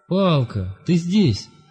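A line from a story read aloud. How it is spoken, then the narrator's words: Exclamation. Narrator (Russian): воскликнул Лесинг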